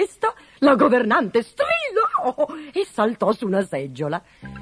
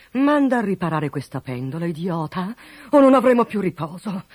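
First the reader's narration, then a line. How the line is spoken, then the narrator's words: Grumbling. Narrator (Italian): brontolò il duca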